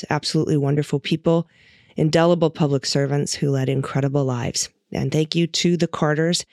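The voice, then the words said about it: Sick, rough-sounding voice. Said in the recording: “I'm still very in the throes of whatever is going around. So pardon my voice today.”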